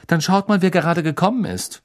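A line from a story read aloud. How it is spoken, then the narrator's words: Curt, brusque. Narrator (German): sagte Hermine schroff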